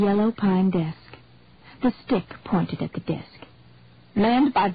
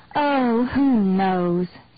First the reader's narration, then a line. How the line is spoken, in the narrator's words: Annie moaned